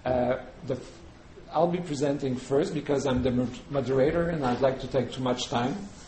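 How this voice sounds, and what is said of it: Non-native accent speaking English. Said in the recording (French): “my accent is probably as worse in English as in French”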